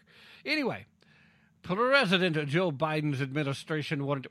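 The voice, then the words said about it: Put-on Russian accent. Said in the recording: “Why why am I doing the Russian accent for President Biden?”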